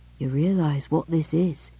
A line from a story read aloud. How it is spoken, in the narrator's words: Kedron said quietly